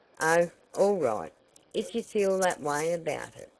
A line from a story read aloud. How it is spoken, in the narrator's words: said Tavia a little stiffly